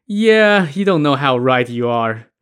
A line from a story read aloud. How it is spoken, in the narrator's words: laughed and was like